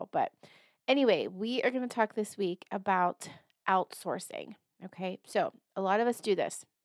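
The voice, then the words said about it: Slightly raspy strained voice. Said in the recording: “I am struggling a little bit with my voice, so if I sound a little raspy or have to clear my throat ... it sounds worse than I feel”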